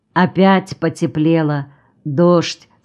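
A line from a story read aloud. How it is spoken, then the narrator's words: Plain. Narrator (Russian): сказал Николай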